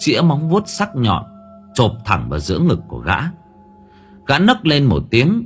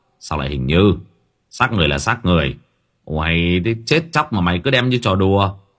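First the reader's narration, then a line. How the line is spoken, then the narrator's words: Irritable snapping. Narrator (Vietnamese): Một người trong đó gắt gỏng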